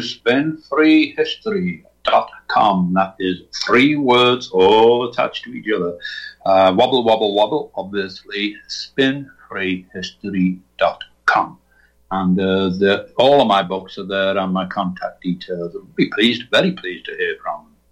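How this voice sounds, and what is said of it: Liverpool accent. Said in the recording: “my Liverpool accent”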